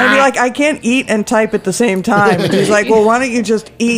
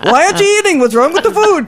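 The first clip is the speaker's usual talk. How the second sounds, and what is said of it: Put-on Jewish accent. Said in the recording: “that's a Jewish accent, I can't do an Italian”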